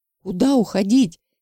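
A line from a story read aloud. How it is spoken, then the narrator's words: Hysterical shout. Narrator (Russian): закричал истерично Павлов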